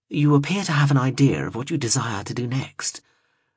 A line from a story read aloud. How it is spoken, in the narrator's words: murmured